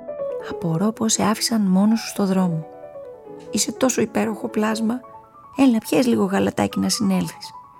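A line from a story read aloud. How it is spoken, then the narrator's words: Sweet voice. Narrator (Greek): του είπε με γλυκιά φωνή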